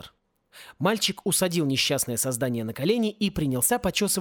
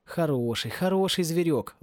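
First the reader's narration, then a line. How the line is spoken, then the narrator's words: Tender. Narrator (Russian): ласково говорил Порре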